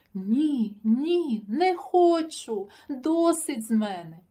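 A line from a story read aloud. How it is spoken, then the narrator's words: Exclaimed in thought. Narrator (Ukrainian): подумки вигукнув Сашко циган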